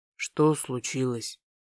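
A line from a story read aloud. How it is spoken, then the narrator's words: Quiet, muffled question. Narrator (Russian): Тихо спросил куда-то в макушку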